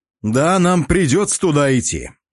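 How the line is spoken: Loud. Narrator (Russian): громко произнес

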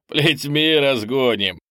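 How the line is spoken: Chuckling. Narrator (Russian): хохотнул Олдосм

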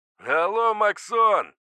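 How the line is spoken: Familiar voice shouting. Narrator (Russian): закричал знакомый голос

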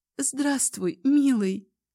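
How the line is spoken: Trembling voice. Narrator (Russian): Дрожащим голосом произносит

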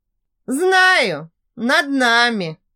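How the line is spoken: Laughing. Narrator (Russian): засмеялся Винсан

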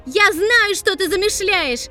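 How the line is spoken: Loud declaration. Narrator (Russian): Громко заявила она

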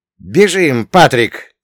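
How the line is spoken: Shouted. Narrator (Russian): крикнул

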